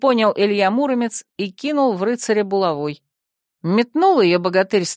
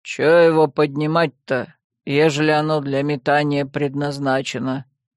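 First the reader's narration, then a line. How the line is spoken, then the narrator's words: Grumbling. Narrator (Russian): Проворчал Илья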